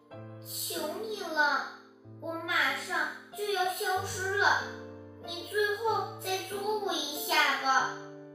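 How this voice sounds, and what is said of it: Thin, weak, feeble voice. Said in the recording (Chinese): “用细小又虚弱的声音说道”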